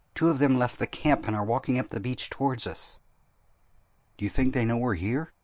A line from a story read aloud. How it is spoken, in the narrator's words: Dar's voice whisper